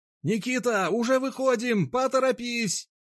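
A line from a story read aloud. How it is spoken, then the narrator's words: Shouted through cupped hands. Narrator (Russian): Соловей, сложив руки в виде рупора, прокричал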